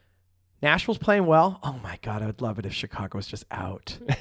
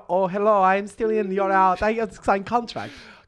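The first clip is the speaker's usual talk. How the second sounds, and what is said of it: Bad generic foreign accent. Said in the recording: “That's my generic foreign accent. It's terrible.”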